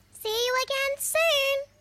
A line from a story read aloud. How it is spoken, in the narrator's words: Kip called out in his little squeaky voice